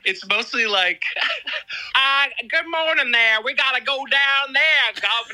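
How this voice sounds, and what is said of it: Put-on southern accent. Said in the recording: “You're doing a southern accent.”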